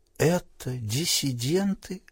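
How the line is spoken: Frightened whisper. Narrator (Russian): прошептала Селли Энн побелевшими губами

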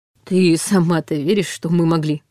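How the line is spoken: Slightly weary retort. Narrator (Russian): Немного устало парировал

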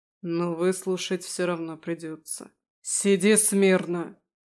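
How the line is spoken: Growled. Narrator (Russian): Рыкнул

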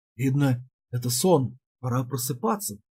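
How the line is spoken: Muttered. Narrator (Russian): пробормотал

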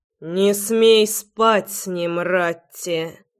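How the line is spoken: Growl. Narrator (Russian): Прорычал я

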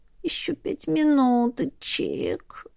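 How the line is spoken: Sleepy mumble. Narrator (Russian): промямлила я

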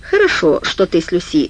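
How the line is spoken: Plain. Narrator (Russian): сказал Джадж

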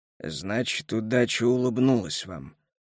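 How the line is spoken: Gruff mutter. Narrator (Russian): буркнул Келлер

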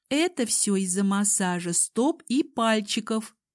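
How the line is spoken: Giggle then soft moan. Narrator (Russian): хихикнула Алсу и тут же нежно простонала

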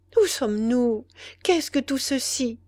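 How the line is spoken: Timid question. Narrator (French): demanda-t-elle timidement

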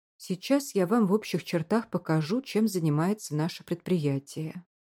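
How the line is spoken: Plain. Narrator (Russian): говорит он

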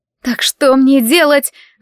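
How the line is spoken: Panicked sobbing. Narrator (Russian): запаниковала Селия, рыдая

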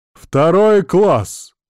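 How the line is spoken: Loud old man declaring. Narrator (Russian): громко заявил этот старик

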